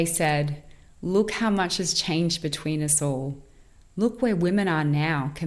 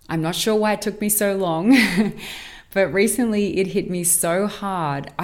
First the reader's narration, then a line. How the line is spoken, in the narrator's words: I laughed abruptly at how I didn't see this before